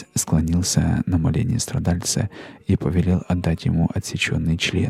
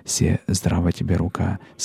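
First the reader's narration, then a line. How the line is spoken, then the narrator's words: Plain. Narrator (Russian): сказала она ему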